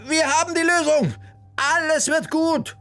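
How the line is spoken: Calling out. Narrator (German): rief sie den beiden entgegen

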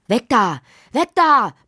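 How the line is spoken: Father shouting. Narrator (German): brüllte Lottis Vater

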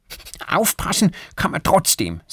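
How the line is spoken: Angry. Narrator (German): sagt Erik wütend

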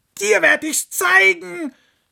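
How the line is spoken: Fox screaming angrily. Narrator (German): schrie der Fuchs die Sonne an

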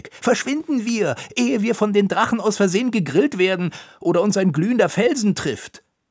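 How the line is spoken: Calling out. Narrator (German): rief Konitschek

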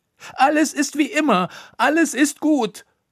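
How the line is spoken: Shouting. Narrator (German): schrie sie

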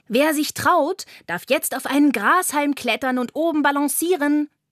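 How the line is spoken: Call. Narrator (German): ruft Carla

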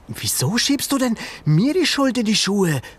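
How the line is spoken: Calling out. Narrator (German): rief Ben

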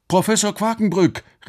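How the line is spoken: Called out. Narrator (German): rief Alex

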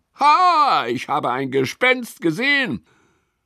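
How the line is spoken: Calling out. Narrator (German): ruft er

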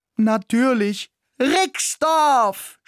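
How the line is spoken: Enthusiastic shout. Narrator (German): schrie ich begeistert

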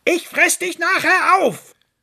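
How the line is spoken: Fox calling after. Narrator (German): rief ihm der Fuchs hinterher

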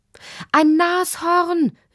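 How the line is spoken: Mother calling. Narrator (German): rief Lottis Mutter

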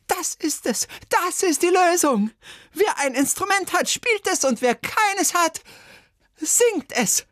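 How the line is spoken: Shouted. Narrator (German): Bertha Schüssel aber schrie

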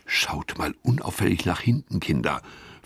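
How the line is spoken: Whispered. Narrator (German): flüstert Gustav

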